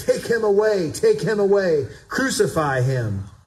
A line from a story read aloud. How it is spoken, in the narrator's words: they shouted